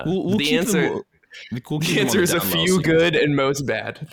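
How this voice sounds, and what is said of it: Put-on New Jersey accent. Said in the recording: “That's my accent. ... your de facto is like the New Jersey”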